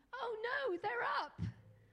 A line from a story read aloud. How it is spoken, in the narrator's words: the devil shouts out